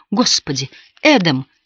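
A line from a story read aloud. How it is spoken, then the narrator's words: Exclaimed. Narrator (Russian): воскликнула Шарлотта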